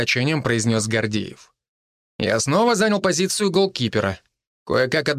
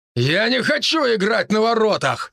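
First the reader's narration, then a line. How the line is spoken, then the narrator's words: Barked. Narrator (Russian): рявкнул Матвей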